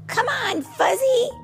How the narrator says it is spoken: Marshall shouted

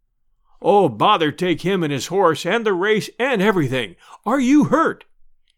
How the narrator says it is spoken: gasped the deacon

